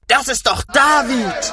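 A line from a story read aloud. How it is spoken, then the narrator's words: Group shouting. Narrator (German): schrien sie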